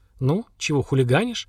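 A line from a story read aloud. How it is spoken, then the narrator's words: Gentle question. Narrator (Russian): Слава мягко спросил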